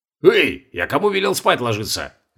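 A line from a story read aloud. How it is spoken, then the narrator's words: Indignant barking shout. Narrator (Russian): возмущенно гаркнул на них Колобков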